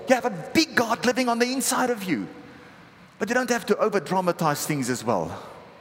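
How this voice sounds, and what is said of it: Afrikaans-accented English. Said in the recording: “picked up on the accent by now, but I'm actually Afrikaans, grew up Afrikaans.”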